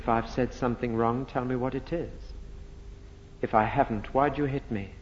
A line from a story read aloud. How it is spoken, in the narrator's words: Jesus quietly says